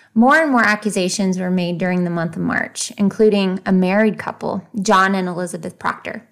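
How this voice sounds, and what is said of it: Usual voice. Nothing is said of it.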